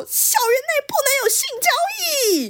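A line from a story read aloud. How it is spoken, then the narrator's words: Shouting. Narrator (Chinese): 新来的女老师 大声喊说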